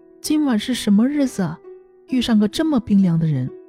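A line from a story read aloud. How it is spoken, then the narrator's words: Smiling mild complaint. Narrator (Chinese): 凤仙嫌刘赤水身上冰凉，微笑着说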